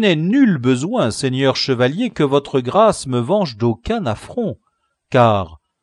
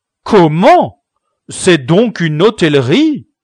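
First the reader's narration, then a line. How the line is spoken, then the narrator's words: Exclaimed. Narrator (French): s'écria Don Quichotte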